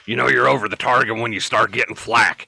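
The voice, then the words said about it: Gravelly imitation of another person's voice. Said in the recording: “my best Alex Jones impersonation ... It was pretty good ... It was pretty gravelly, so it was on point”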